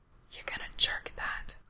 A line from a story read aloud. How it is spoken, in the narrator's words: Frank whispers heatedly